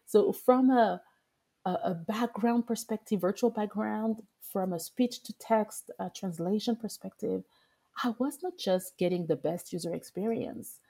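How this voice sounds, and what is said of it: English with a French accent. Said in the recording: “speaking English with a French accent”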